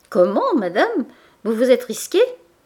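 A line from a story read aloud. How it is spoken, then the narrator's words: Cheerful exclamation. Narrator (French): s'écria gaiement Boutemont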